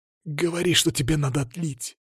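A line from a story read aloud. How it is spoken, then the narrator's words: Whisper. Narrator (Russian): прошептал я Алексею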